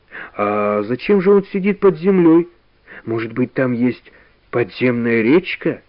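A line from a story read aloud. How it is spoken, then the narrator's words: Plain. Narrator (Russian): спросил Карик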